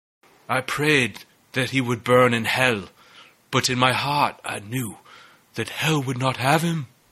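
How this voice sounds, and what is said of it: Movie character impression. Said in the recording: “you dusted that off pretty well. That impression, that's right there, dude.”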